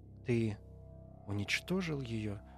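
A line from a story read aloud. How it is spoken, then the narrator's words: Quiet question. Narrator (Russian): спросила она тихо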